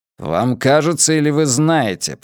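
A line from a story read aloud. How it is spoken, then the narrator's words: Through gritted teeth. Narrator (Russian): процедил Де Соя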